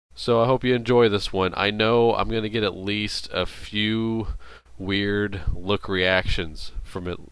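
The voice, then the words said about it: Deep, congested voice. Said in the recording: “I'm just coming down from a major cold, if you couldn't tell ... maybe it gives me a little extra bass coat on my voice, gives me a nice little radio voice there”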